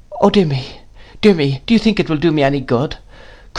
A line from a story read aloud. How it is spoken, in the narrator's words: cried my mother in a helpless manner